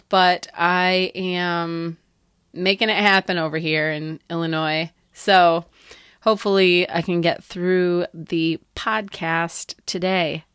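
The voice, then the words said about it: Voice slightly affected by a cold. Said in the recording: “I have a little bit of a cold”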